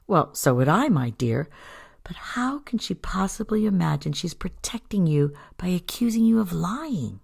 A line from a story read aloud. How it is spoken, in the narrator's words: Despite her anger, Elizabeth chuckled